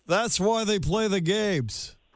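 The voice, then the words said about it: Imitates another person's voice. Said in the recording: “he said it like this ... That was my Ira impression.”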